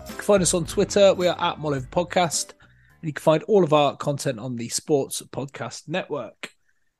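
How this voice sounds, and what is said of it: West Country English accent. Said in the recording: “all with a West Country accent.”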